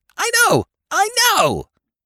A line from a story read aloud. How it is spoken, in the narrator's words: he shouted